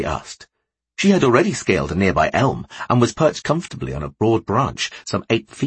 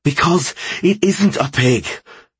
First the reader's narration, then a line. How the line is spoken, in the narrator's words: Ben replied between gasps